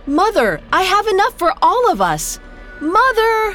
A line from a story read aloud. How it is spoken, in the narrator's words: sprinted off, yelling